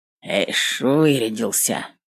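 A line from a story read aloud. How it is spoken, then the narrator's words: Grumbling. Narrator (Russian): проворчал Степан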